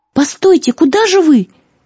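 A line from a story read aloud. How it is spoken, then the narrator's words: Young woman shouting. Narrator (Russian): крикнула девушка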